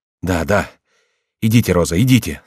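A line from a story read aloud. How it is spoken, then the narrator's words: Plain. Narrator (Russian): сказал Корнелий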